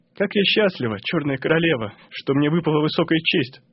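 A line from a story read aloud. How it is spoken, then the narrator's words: Whispering. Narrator (Russian): шептала Тафана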